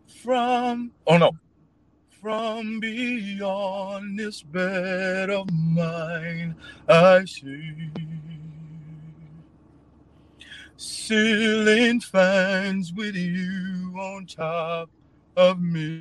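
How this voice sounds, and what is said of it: Singing in an operatic voice. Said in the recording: “sing it in your best opera voice.”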